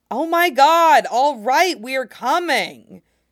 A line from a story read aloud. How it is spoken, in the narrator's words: He yells